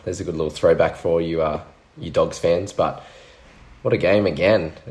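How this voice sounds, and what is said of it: Voice sounds affected by illness. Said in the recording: “Sorry about my voice. I may have the Curtis Rona.”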